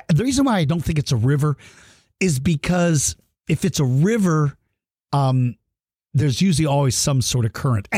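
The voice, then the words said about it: Slightly rough voice. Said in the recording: “my voice may sound a little rough”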